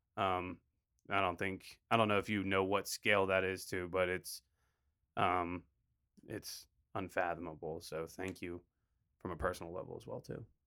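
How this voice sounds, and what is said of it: Choked-up emotional voice. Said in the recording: “getting choked up ... I am.”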